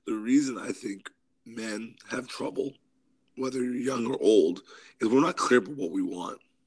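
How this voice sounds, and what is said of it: Hoarse, grumbly voice. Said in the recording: “I have a little bit of a cold, so I'm a little hoarse ... sound kind of like Barry Manilow ... You got that grumble”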